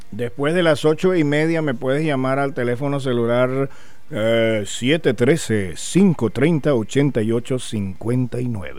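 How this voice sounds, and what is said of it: Radio announcer voice. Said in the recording (Spanish): “esa voz ... ya tengo voz de locutor”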